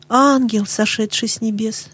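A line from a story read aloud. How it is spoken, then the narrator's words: Old man's heartfelt whisper. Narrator (Russian): прошептал старик с глубоким чувством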